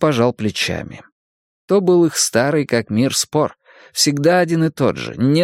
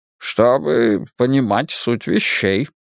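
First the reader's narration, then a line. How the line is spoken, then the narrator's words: Grumbled. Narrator (Russian): буркнул он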